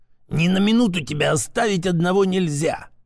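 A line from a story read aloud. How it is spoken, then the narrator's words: Angry hissing old man. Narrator (Russian): зло шипел дед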